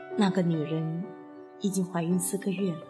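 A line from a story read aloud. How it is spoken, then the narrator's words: Soft. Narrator (Chinese): 罗格轻声说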